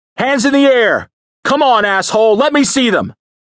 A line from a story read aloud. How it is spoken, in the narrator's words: he shouted